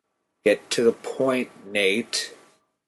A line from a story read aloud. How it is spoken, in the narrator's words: spoke through gritted teeth